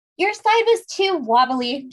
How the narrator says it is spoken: shouted Meg

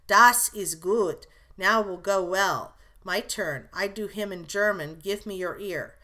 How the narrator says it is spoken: cried out in his hearty way

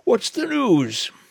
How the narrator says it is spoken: yawned Kernan

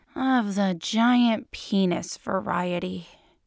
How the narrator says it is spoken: he sighs

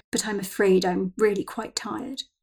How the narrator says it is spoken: Victoria pronounced in the most sombre of tones

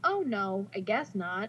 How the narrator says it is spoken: says quietly

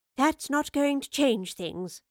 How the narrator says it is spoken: the professor sighed

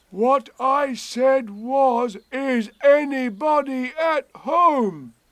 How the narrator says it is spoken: called out Pooh very loudly

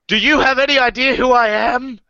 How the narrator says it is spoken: shouts in English

